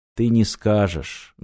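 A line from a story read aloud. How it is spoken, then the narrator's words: Sad. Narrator (Russian): грустно сказал японец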